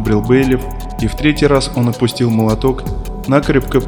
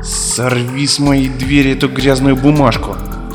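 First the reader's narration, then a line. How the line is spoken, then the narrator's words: Breathless furious growl. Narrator (Russian): прорычал Бенедикт, задыхаясь от ярости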